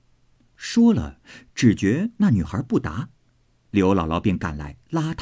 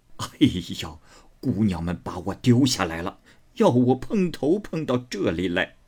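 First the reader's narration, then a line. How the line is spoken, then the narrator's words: Hurried, laughing. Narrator (Chinese): 刘姥姥忙笑道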